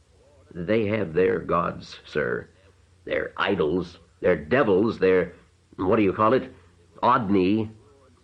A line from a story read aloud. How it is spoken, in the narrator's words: Father Aegis, though without vanity, was perhaps a little hurt, for he finally said in a rather stiff tone